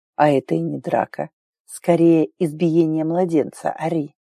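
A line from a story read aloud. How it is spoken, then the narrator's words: Cheeky growl. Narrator (Russian): прорычал, нахально улыбаясь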